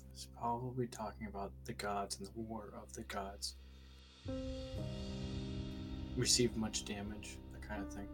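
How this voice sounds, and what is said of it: Whispering. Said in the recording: “I whispered that... why am I actually whispering?”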